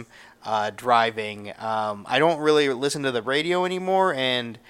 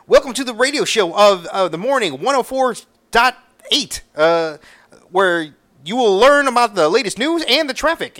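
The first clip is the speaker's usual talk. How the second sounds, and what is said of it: High-pitched energetic radio DJ voice. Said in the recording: “that high-pitched, very energetic, it's just stereotypical radio voice.”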